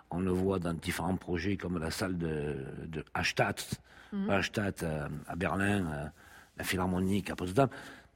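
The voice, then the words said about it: Strong Mediterranean French accent. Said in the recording (French): “à fort accent, avec un faciès méditerranéen”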